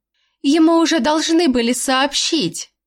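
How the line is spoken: Joyful blurt. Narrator (Russian): радостно выпалила мама

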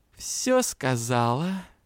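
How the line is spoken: Unctuous honeyed question. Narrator (Russian): елейным голосом вопросила тетушка

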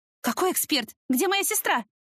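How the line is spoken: Panicked scream. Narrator (Russian): в панике закричала

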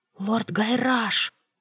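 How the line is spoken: Whispered call. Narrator (Russian): шепотом позвала я

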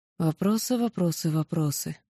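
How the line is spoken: Sad summing up. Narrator (Russian): подытожила печально

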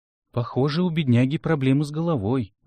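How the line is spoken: Sigh. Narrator (Russian): вздохнул я

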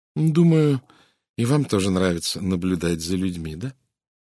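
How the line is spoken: Muttered. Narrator (Russian): пробормотала миссис Редфорд

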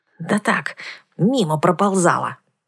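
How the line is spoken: Snappish retort. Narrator (Russian): огрызнулась я

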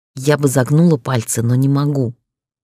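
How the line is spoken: Through gritted teeth. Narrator (Russian): процедила ему в лицо

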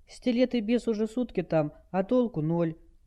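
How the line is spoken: Sad remark. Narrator (Russian): грустно заметила Хелл

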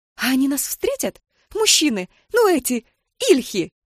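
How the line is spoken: Thin squeal, young girl. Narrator (Russian): Тоненько взвизгнула молоденькая кучерявая девушка

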